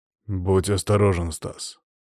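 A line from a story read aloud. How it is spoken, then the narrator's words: Through gritted teeth. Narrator (Russian): процедил Игорь Станиславович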